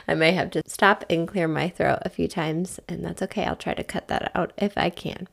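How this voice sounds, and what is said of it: Congested, sinusy voice. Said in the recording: “we've all had this like sinusy thing. So if you can tell that in my voice”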